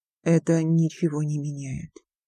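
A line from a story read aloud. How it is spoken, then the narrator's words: Muffled, hollow voice. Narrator (Russian): глухо проговорил он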